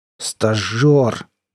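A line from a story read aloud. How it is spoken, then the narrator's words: Contemptuous, through teeth. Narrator (Russian): презрительно кривя губы, процедил рвач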